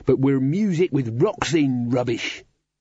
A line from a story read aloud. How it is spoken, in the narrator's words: snarled Crash